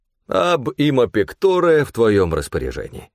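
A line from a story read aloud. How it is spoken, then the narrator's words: Laughing. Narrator (Russian): рассмеялся и сказал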